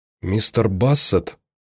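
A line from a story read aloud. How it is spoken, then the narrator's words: Whispered. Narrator (Russian): прошептала она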